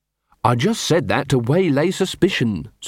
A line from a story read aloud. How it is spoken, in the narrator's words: said Carrot